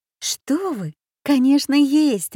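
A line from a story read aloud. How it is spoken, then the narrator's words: Indignant exclamation, female. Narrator (Russian): воскликнула Аня, которая не могла молча слушать подобную ересь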